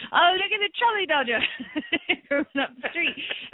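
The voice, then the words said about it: Bad put-on English accent. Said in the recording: “they speak in really bad English accents back then ... I always speak in bad accent.”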